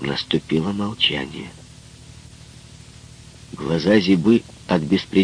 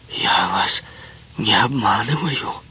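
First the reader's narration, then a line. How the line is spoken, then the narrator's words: Hoarse rasp. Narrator (Russian): прохрипела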